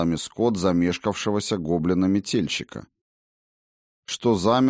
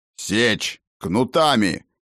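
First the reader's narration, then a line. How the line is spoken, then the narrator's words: Barked by a fat man. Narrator (Russian): рявкнул толстяк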